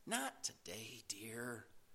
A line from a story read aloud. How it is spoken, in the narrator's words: her mother sighed